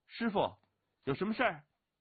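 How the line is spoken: Strained snorting call. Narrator (Chinese): 勉强 鼻息长喷 叫的

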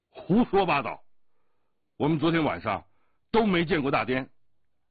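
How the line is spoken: Angry shout. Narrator (Chinese): 降龙怒喝道

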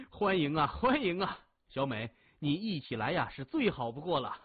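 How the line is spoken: Forced hearty laughter. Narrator (Chinese): 李峰的脸色微变，但很快哈哈笑起来

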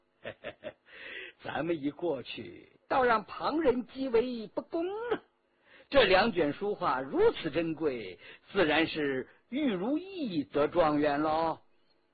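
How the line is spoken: Laughing. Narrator (Chinese): 纪晓岚笑道

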